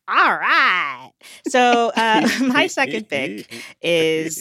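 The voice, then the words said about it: Cartoon character voice impression. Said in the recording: “my best Linda Belcher impression. I tried.”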